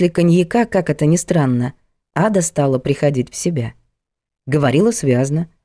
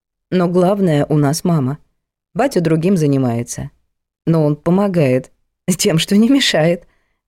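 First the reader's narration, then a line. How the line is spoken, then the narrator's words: Chuckling. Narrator (Russian): хохотнула Ада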